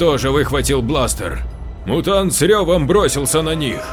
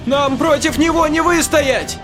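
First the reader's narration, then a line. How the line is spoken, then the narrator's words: Shouting. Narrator (Russian): закричала Ниана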